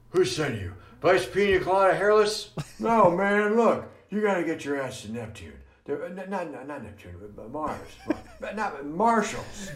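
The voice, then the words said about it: Senile old president impression. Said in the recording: “He's got the like senile. He's got that part down. ... any time people do impressions of presidents”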